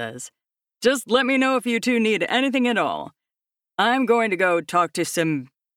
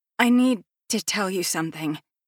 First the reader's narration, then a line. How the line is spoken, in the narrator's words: she says nervously